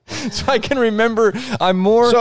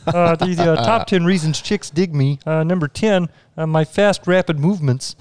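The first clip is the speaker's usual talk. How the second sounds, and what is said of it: Kermit the Frog character voice. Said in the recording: “my impression... My impression is an impression of Scotty B doing his bit”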